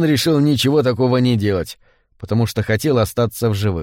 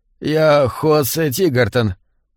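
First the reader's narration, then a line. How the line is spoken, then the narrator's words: Trembling voice. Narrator (Russian): дрожащим голосом сообщил он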